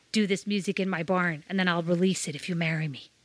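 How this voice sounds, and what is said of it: Put-on American accent. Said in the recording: “that was my American accent ... there was an excellent American accent”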